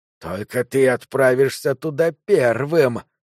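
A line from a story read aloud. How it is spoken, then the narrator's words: Hiss. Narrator (Russian): прошипел он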